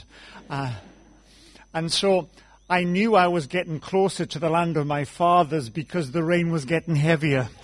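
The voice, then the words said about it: South Wales accent. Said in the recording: “I grew up in South Wales ... why give up a good accent?”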